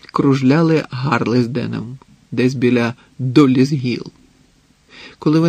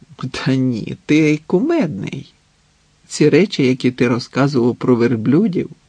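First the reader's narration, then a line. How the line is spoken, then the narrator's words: Laughing. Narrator (Ukrainian): засміялася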